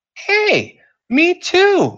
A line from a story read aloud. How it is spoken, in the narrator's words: Muffy exclaimed